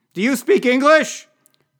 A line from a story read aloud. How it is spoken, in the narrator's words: demanded Senator Buffart loudly